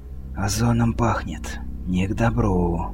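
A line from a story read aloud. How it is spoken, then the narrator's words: Said quietly, barely moving lips. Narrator (Russian): тихо, едва шевельнув губами, произнес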